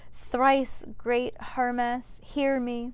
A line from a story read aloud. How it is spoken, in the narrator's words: seemed to address the sky itself as she cried